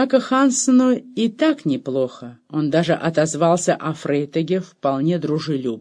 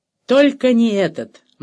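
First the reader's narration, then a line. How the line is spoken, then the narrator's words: Grim objection. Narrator (Russian): мрачно возразил Рибер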